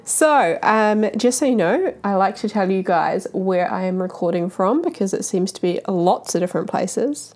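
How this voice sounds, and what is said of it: Husky, slightly off voice. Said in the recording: “my voice is a little bit husky or off... it's super sexy right now because I am just coming out of having the flu for a week”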